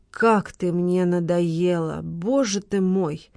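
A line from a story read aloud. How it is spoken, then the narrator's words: Hissed through teeth, irritated. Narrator (Russian): Процедил Валентин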